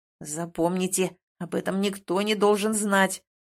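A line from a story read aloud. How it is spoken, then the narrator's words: Growled. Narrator (Russian): прорычал эльф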